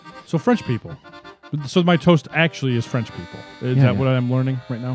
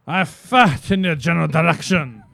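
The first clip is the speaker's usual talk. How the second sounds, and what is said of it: Ridiculous fake French accent. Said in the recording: “Of course I'm a French. Listen to my ridiculous accent.”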